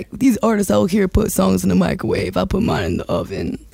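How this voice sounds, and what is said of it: Imitates a rapper's voice. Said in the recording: “that's a good Jeezy impression.”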